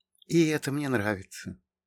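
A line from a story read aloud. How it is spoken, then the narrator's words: Quiet. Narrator (Russian): тихо сказала она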